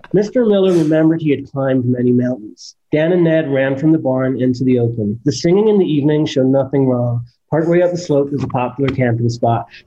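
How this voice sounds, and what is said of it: Put-on American accent. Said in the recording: “what your American accent sounds like? ... before you do any American accent.”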